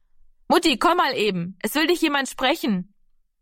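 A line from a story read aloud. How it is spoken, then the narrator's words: Calling out. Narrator (German): rief Heidemarie von der Hoftür aus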